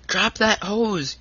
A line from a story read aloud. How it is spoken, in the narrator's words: yelled Tom in louder tones